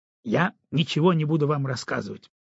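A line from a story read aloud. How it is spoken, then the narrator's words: Sharp reply. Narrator (Russian): резко ответил он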